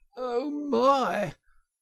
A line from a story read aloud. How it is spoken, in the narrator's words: gasped the poor Toad